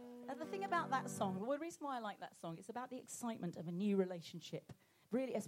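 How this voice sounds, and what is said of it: Usual voice. Nothing is said of it.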